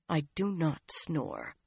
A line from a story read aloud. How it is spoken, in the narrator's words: Nynaeve said in a tight voice